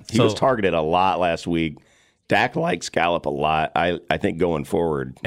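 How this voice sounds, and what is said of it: Strained voice that keeps cracking. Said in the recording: “my voice is not good... my voice keeps cracking”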